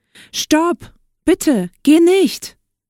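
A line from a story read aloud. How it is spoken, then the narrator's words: Prince calling out. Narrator (German): rief der Prinz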